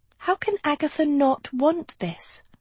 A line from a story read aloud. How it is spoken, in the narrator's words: she breathed